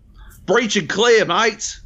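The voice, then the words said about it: Exaggerated Australian accent. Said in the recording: “do it as an Australian. Just give them a fucking hilarious accent.”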